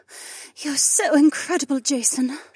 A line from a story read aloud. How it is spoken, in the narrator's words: she purred